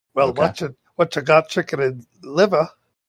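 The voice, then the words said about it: Put-on character accent. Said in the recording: “she has the same accent as Daphne ... Why did you do a different accent if they're the same?”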